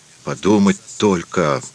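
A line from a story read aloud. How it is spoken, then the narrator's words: Confused muttering. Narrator (Russian): растерянно бормотал несчастный Александр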